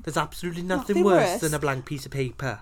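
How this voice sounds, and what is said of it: Welsh accent. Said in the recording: “How do you say this in a Welsh accent?”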